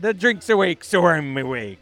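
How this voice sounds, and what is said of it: Attempted Irish accent, sounding pirate-like. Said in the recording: “I don't know how to do an Irish accent... A little bit of a pirate accent”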